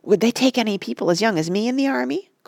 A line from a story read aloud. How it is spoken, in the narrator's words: cried Oliver, his eyes shining